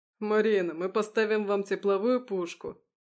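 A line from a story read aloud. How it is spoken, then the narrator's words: Chuckling. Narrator (Russian): хохотнул собеседник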